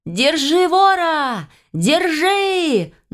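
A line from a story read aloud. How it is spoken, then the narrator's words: Screaming at full strength. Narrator (Russian): я, что есть мочи, закричала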